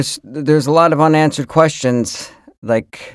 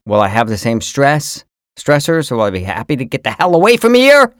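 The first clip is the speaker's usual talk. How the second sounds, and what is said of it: Voice rises unusually high. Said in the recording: “why my voice got so high”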